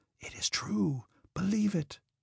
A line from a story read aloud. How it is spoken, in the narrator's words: the sound of the waves kept up a refrain to Pierre's words, whispering